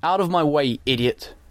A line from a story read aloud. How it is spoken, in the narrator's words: shouted